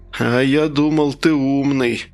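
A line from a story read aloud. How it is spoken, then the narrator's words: Confused drawl. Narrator (Russian): растерянно протянул парень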